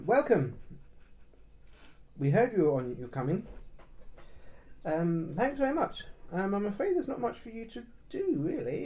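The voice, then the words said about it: Very thick Danish accent. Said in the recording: “He's speaking to you in a very thick Danish accent.”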